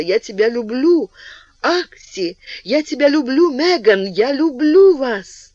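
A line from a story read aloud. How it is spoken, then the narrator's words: Scream turning to sobs. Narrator (Russian): Ее крик перешел в рыдание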